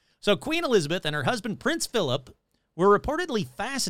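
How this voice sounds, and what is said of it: Usual voice. Nothing is said of it.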